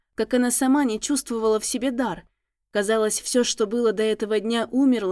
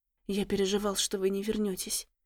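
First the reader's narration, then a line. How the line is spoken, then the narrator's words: Tracker whispering. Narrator (Russian): прошептал следопыт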